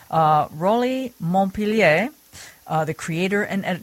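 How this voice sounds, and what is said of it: Fake French accent. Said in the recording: “Did I do my fake French accent okay?... That was not convincing... It was actually very good.”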